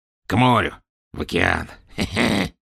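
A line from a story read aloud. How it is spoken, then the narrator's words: Hoarse, fading away. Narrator (Russian): хрипел он, уплывая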